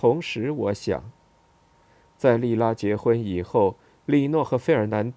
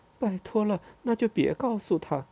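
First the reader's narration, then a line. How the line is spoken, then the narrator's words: Soft, quiet voice. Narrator (Chinese): 也小声的说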